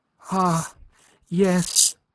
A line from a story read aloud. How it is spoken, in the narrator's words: cried Aline